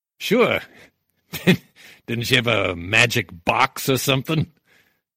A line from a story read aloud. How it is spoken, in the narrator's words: Nitty smiled lasciviously and laughed